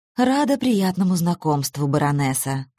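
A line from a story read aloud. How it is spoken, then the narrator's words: Soft, quiet woman. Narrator (Russian): сказала она тихим, мягким голосом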